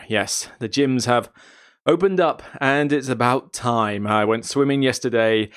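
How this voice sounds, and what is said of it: Tired, slightly hoarse voice. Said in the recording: “My voice is kind of going from all the streaming”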